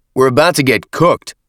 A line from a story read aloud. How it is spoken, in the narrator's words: Avery shouted, face and forearms smarting from the cloud